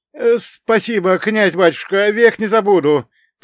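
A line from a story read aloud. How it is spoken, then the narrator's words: Timid babbling. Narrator (Russian): пролепетал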